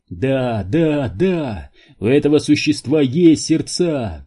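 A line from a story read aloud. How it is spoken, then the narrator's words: Shout. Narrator (Russian): прокричал Квентин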